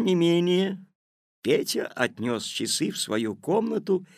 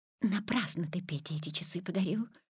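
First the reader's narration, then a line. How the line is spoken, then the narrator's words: Mother whispering. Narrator (Russian): шепотом сказала мама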